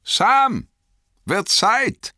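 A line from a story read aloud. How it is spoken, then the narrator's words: Call. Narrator (German): rief er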